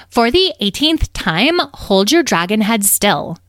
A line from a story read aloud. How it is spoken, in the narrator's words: they snapped